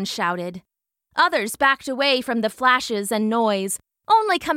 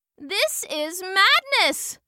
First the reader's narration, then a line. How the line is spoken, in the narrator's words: shouted the scientist